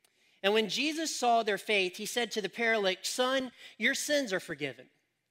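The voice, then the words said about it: North Carolina Southern accent. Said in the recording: “I have an accent from Colfax, North Carolina”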